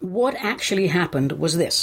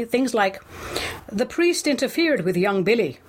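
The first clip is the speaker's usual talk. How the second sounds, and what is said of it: Deliberately bad Irish accent. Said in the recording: “doing the Irish accent badly.”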